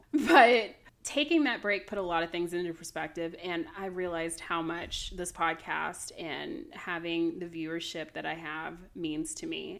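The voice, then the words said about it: Peppy, energetic voice. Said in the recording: “now I sound like a lot peppier, which is normal”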